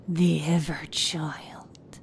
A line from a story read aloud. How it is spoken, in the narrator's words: he growled through gritted teeth